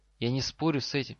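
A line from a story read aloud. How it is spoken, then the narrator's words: Quiet. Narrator (Russian): тихо сказал Гарри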